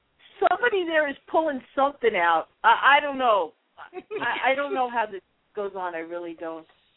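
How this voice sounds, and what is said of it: Irish accent. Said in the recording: “Love the Irish accent.”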